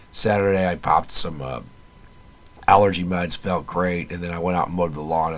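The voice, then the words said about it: Quiet, hoarse laryngitis voice. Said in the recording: “I usually kind of do this in a quiet voice anyway ... my voice sounds like absolute shit because I've got laryngitis ... all the pollen and whatnot in the lawn just tore my voice up”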